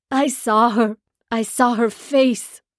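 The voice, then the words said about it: Strangled, anguished crying out. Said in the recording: “He cries out in a strangled voice,”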